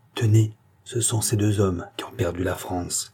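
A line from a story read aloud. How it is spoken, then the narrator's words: Low voice. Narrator (French): à voix basse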